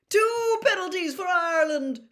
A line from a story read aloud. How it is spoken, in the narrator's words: shouted Bagman